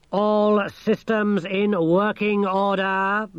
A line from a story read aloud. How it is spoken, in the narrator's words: boomed the thing